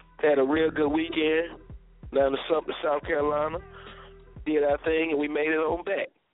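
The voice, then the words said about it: Slightly congested, sniffly voice. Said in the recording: “Excuse my voice a little bit. I'm working with a little sniffle today.”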